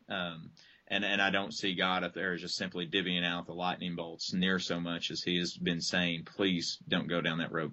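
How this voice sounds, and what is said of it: Southern American accent. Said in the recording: “maybe it's the Southern accent that makes me think of Jeff Foxworthy”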